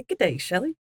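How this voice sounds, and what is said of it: Poor cartoonish British accent attempt. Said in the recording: “My British accent sounds like an Asian accent slash American accent slash not really a British accent... That sounds like a cartoon, doesn't it? Bad.”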